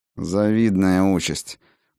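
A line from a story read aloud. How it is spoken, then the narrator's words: Through gritted teeth. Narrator (Russian): процедила Райна сквозь зубы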